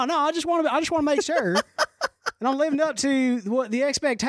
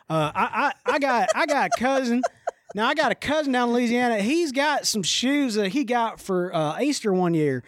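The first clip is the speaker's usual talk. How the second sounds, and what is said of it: Inconsistent put-on Southern accent. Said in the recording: “I've kind of crossed my Southern accent a couple different ways there”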